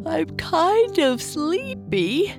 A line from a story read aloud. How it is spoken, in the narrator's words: Papa Bear said, covering his mouth while yawning